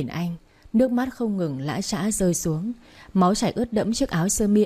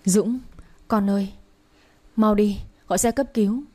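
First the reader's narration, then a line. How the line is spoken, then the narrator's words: Trembling loud call, mother. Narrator (Vietnamese): Mẹ anh run run gọi lớn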